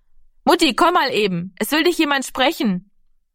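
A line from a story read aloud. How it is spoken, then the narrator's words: Calling from the doorway. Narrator (German): rief Heidemarie von der Hoftür aus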